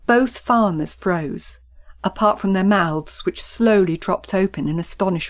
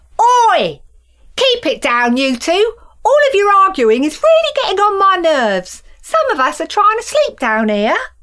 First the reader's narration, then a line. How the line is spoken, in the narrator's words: she shouted